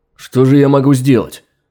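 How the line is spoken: Stunned exclamation. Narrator (Russian): ошарашенно воскликнул Сират

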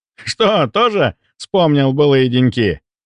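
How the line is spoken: Loud laughter. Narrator (Russian): По обыкновению громко расхохотался Антон

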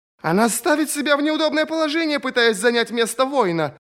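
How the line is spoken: Woman shouting. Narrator (Russian): крикнула одна женщина

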